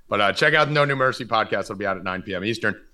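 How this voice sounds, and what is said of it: Hoarse, strained voice. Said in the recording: “I'm already losing my voice, as you could probably tell from talking all day.”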